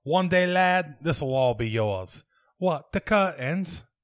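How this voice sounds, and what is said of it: Put-on English accent. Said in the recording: “Can you do a good English accent? ... as long as it is a Monty Python quote ... Oh, that's good.”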